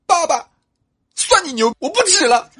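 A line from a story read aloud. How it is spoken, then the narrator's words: Tearful, subsiding sobs. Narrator (Chinese): 猫小小在那哭，哭着哭着就停住了 说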